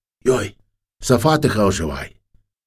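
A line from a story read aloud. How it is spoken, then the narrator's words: Whispered. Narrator (Ukrainian): хтось шепнув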